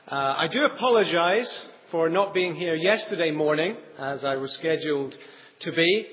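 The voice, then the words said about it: English with a slight non-native accent. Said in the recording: “I do have a slightly funny accent, as you can tell”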